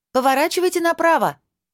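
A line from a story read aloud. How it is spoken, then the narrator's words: Shouted after someone. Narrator (Russian): крикнула я ему вдогонку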